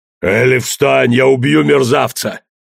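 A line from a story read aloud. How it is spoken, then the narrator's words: Growled. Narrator (Russian): зарычал труп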